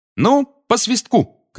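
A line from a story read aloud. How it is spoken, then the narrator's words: Shouted. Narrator (Russian): крикнула Анжелина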